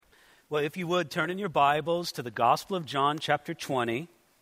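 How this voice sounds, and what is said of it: Slightly sick, strained voice. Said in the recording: “My voice is just a little under the weather”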